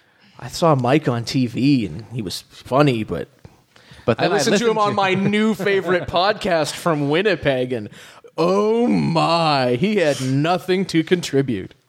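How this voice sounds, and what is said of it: Imitates another person's voice. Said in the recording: “That's a good impression of that person.”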